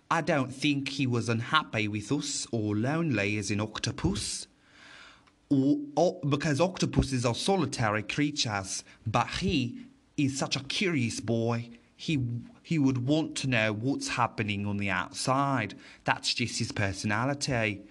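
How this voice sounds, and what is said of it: Put-on Australian accent. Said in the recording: “That was my best Australian accent.”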